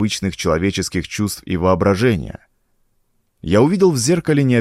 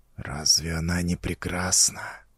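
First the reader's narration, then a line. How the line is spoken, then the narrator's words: Whisper. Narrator (Russian): прошептал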